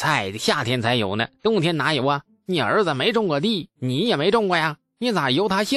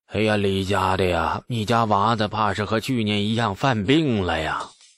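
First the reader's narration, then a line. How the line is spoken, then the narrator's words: Sighing. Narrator (Chinese): 唉，李道正又叹息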